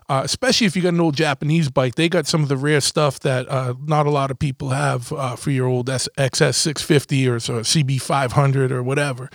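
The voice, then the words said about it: Strong Boston accent. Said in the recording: “Excuse the Boston accent. Sometimes I can't turn it down, and then I realize that 90% of the country can't understand what I'm saying half the time.”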